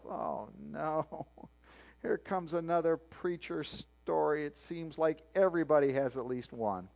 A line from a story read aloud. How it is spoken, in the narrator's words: Craddock said he groaned inwardly and thought to himself